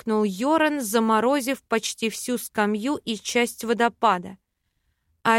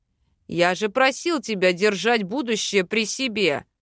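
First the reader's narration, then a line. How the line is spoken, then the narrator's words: Growling. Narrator (Russian): рыкнул Бальт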